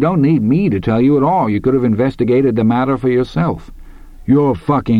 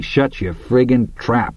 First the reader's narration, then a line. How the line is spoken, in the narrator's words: Hadley growled